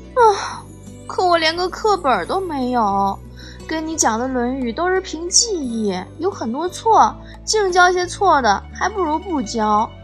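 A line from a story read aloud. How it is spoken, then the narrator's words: Sighing. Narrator (Chinese): 我叹气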